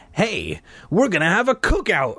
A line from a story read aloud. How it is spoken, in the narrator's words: I exclaimed to Mike